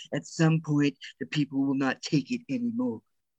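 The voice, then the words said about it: Imitates another person's voice. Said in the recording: “That was my best impression of... that was pretty good.”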